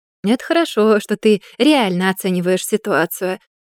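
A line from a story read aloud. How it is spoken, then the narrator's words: Laughing. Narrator (Russian): засмеялся Рихтер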